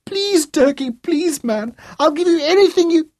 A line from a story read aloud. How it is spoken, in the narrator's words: Booty shrieked again